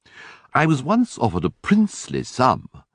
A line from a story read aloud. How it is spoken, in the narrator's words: went on Smith, now floating happily along on the tide of his native exuberance